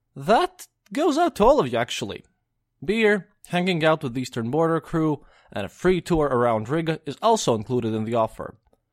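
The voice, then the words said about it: Non-native English accent. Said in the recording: “not being a native speaker myself ... this silly accent”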